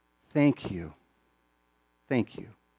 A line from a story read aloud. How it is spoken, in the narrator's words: very earnestly, very genuinely, this young man said